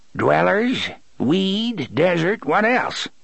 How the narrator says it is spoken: He cackled

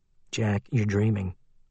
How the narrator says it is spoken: Liam said quietly

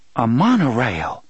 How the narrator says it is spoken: Susanna exclaimed

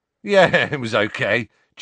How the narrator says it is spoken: chuckled Dean

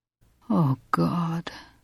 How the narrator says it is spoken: he moans in a voice so low he can barely hear it himself

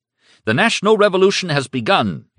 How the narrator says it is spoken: Hitler shouted

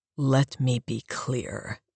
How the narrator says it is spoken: he growled, furious

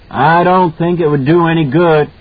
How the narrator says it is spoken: Halloran shouted back

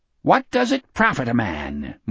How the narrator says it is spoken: Morgan chirruped brightly

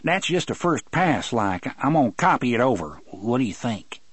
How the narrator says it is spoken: said hastily

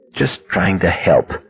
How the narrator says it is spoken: muttered

